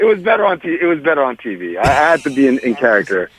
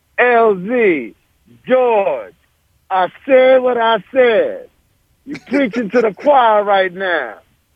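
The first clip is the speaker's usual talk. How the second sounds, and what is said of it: Imitates another person's voice. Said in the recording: “my perk impersonation ... not terrible, but not great”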